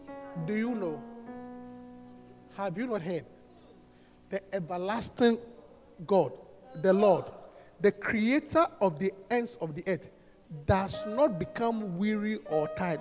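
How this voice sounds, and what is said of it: Speaks with a noticeable accent. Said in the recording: “You don't get my accent?”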